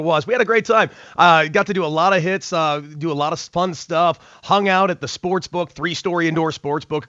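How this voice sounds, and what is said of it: Slightly hoarse voice. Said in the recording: “my voice is still a little hoarse,”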